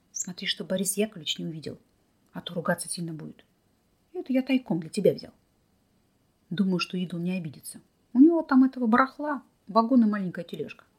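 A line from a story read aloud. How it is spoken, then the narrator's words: Whisper in ear. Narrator (Russian): шепнув ей на ухо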